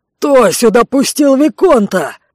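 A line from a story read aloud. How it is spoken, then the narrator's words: Yelling. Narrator (Russian): заорал Рэй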